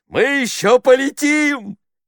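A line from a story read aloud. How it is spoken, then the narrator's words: Shout. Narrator (Russian): крикнул он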